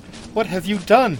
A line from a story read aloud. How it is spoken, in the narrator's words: cried Taramis